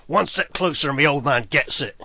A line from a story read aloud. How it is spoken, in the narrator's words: he growls